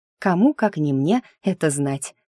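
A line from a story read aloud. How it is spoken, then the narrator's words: Laughing. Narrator (Russian): Я рассмеялась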